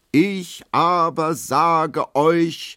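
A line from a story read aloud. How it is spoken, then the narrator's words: Roaring lion-like male voice. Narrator (German): brüllt er mit Löwenstimme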